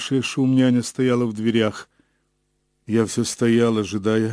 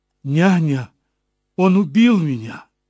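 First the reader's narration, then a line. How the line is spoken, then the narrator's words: Crying out. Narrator (Russian): вскрикнула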